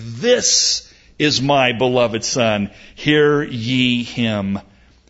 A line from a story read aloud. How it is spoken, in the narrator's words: a voice thundered from heaven saying